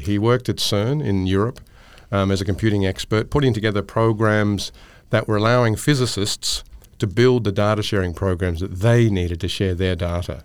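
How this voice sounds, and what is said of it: Australian accent. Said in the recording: “He graduated from a university in Melbourne, so he shares an accent with me.”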